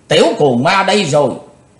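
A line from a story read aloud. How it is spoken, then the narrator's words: Loud leader's shout. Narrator (Vietnamese): Tên đứng đầu quát lớn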